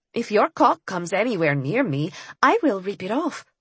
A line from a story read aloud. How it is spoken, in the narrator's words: I said in my most pleasant voice